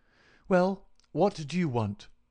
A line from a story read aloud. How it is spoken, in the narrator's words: asked sharply